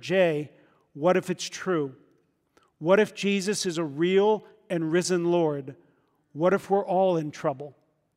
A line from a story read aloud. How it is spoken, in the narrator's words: With tremors, I whispered